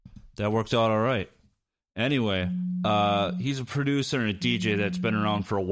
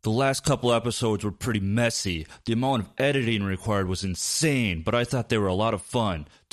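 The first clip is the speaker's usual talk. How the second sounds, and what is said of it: YouTube announcer voice impression. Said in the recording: “I'm going to do this next part like a YouTube announcer. ... my impression.”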